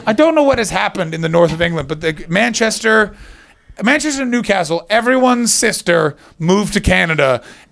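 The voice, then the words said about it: Canadian accent. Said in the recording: “I get shit for my accent in the north ... where are you from? And I'll say, Canada.”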